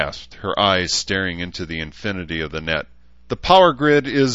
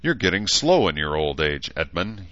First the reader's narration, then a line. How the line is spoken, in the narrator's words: he chuckled